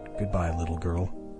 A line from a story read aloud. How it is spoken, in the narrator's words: Max whispered